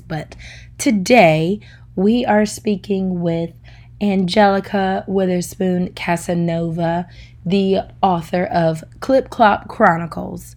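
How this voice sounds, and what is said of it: Voice sounds sick, under the weather. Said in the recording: “I am a little under the weather ... apologize for my voice.”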